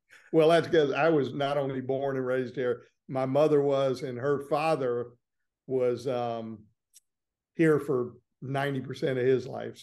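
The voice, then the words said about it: Southern American accent. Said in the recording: “you actually have a Southern accent”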